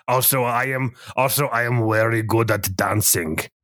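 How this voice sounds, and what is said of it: Over-exaggerated fantasy character accent. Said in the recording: “This accent sounds like it would be really difficult to lose ... the true accent of the Storm Feasts ... his a little bit over-exaggerated accent”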